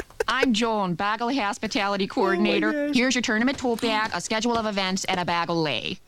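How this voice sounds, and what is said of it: Strong Midwestern American accent. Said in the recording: “That accent is killing ... She has the most Midwestern accent ever ... Minnesota”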